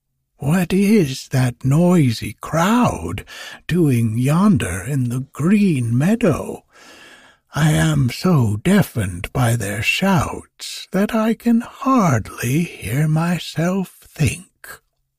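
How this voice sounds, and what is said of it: Cracked old woman's voice. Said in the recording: “quoth the old woman in a cracked voice”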